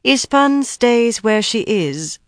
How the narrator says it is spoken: she told Kyrianna coolly

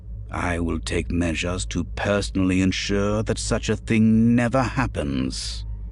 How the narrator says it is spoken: he said stiffly

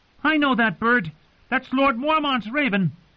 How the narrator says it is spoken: Samwell Tarly shout

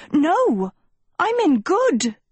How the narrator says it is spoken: she shouted

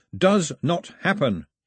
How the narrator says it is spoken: he shouted at the sky

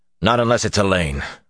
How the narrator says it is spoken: Rand said, more harshly than he meant

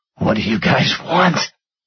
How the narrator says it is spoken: Stone whispered

